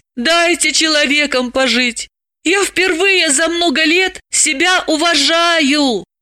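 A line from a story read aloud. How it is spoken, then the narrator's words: Pleading. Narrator (Russian): Далила взмолилась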